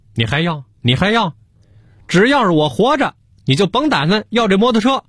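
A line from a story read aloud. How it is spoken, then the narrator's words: Shouting in frustration. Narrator (Chinese): 嚷嚷急了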